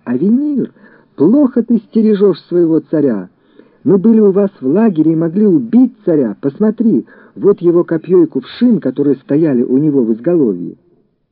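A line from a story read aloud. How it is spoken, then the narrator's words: Shouting with all his might. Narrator (Russian): Давид изо всех сил закричал Авиниру, полководцу Саула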